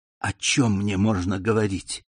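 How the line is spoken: Whispered question. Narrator (Russian): шепотом спросил Альбер граф

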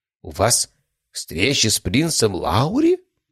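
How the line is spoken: Whisper. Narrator (Russian): прошептал Преображенский

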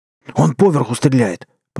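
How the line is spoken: Hoarse wheeze. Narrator (Russian): прохрипел Семен

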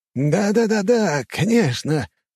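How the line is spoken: Squeaky voice. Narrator (Russian): снова пропищал Мамонов

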